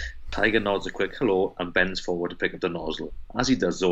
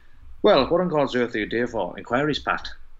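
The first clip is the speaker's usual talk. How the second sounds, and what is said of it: Put-on Irish accent, a bit fast. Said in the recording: “That's a good accent, yeah? ... Was that too fast for Irish accent? ... Little bit”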